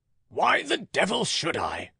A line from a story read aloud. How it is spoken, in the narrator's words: broke in a rough voice which Catherine started to recognize as her father's